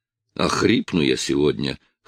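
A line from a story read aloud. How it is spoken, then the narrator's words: Chuckle close to ear. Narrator (Russian): хохотнул мне в ухо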